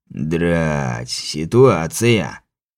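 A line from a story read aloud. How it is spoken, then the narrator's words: Puzzled drawl. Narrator (Russian): озадаченно протянул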